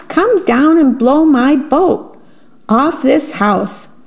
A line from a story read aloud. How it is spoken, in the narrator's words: shouted the mouse